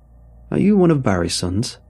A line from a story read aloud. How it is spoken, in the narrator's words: he asked